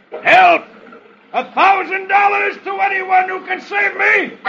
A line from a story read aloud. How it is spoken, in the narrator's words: from midstream, he yells